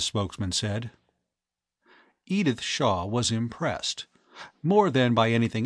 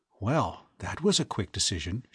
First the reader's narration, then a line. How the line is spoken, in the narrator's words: whispered